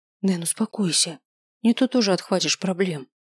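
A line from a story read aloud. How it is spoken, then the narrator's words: Quiet. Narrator (Russian): тихо сказала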